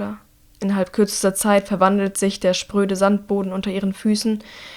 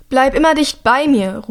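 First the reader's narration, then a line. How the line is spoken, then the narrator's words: Shouting over storm noise. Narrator (German): ruft Hilda Drea über den Lärm des Unwetters hinweg zu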